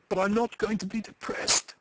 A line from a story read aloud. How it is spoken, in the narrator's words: she cried perversely